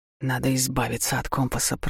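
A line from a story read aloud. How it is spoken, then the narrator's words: Captain mumbling. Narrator (Russian): пробормотал капитан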